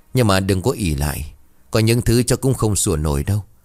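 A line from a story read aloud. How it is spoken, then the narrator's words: Cold, sneering. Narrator (Vietnamese): Bà Thủy bấy giờ cười nhạt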